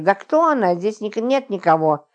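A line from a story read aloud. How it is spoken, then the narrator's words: Irritated insistence. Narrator (Russian): раздраженно заверяла Загогулина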